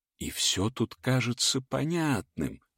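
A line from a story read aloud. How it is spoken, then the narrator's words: Conspiratorial teacher's voice. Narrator (Russian): заговорщицким голосом продолжил учитель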